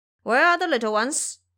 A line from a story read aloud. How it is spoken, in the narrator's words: Bo Qin yelling